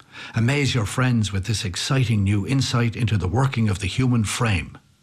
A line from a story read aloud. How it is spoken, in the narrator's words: the ad said